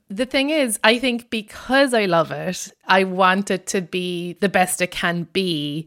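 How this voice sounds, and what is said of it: Irish accent. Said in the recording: “I'm Irish. And in case my accent wasn't obvious enough”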